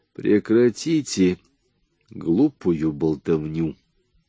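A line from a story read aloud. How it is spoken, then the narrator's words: Rude curt interruption. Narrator (Russian): грубо обрезал его Брандт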